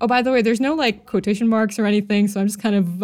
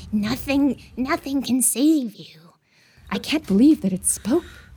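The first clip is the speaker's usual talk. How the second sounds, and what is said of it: Monster voice. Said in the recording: “just do a monster voice?”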